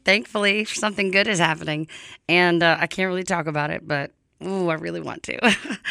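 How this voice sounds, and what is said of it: Hoarse voice. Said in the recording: “pardon my voice. I'm a little hoarse.”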